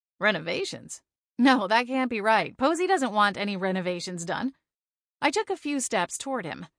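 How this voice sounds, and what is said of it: Usual voice. Nothing is said of it.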